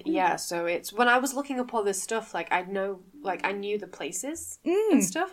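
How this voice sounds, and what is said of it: Manchester accent. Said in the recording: “if you can't tell from our accents, a lot of people can't tell, but no, we are actually from Manchester.”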